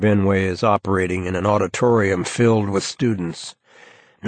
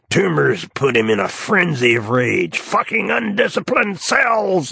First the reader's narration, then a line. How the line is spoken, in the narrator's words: snarl